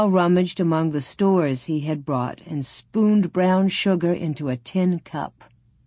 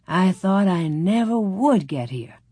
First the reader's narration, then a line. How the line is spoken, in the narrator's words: Paul sighed